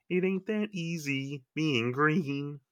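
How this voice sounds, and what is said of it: Sung Kermit the Frog voice impression. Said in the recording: “I can do Kermit and I can do Kermit pretty good ... I can even sing as Kermit ... my voice is cracking a little bit because of the throat”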